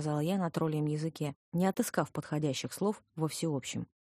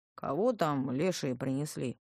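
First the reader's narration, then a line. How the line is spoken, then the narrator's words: Sleepy, displeased male voice. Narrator (Russian): сонно и недовольно отозвался мужской голос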